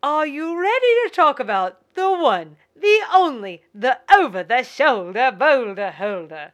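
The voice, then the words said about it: Put-on Southern accent, old Hollywood. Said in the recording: “That was a beautiful Southern accent, wasn't it? ... It sounded like 30s 40s? Hollywood.”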